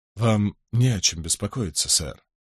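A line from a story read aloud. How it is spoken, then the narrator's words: Soft. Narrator (Russian): мягко произнес Питер Боун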